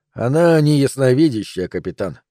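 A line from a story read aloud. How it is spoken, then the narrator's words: Calm. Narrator (Russian): спокойно ответил Хантер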